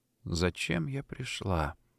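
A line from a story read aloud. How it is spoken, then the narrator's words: Whispering. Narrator (Russian): готовы прошептать уста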